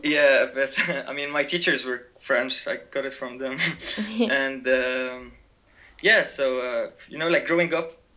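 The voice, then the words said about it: French accent in English. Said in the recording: “some people tell me I have quite a French accent ... It does sound quite French.”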